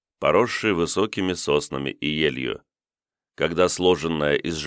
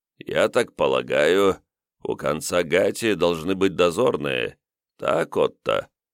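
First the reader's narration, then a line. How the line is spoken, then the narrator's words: Muffled, husky. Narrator (Russian): Приглушенный с хрипотцой голос Комтура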